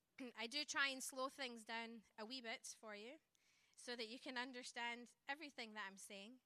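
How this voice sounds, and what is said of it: Scottish accent. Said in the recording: “I do not have a Mississippi accent. I don't have an American accent for that reason. I was born in Scotland. ... that's where my twang comes from.”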